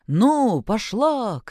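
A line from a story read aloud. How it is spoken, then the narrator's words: Shouted. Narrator (Russian): крикнул тот, кто сидел на облучке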